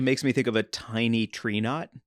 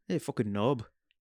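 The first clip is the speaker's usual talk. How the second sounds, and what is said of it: Unconvincing put-on accent. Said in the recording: “Not a good accent? ... No. ... I tried.”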